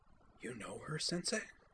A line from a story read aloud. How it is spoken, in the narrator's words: whispered